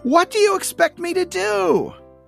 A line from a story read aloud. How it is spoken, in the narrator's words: screams